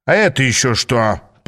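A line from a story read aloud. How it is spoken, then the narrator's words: Growling. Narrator (Russian): прорычал он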